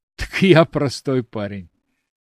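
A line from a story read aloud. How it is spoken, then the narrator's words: Laughing. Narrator (Russian): Алексей рассмеялся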